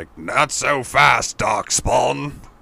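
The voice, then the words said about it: Good impression of a game character. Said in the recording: “Pretty good impression.”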